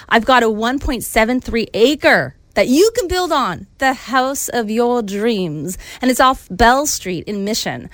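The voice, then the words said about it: Put-on Southern US accent. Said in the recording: “You just become a Southern Belle there. You went into your Southern accent. ... It's like Gone with the Wind suddenly here.”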